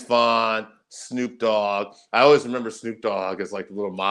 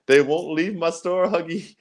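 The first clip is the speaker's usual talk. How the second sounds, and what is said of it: Poorly done put-on Indian accent. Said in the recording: “I'm sorry about my poor Indian accent”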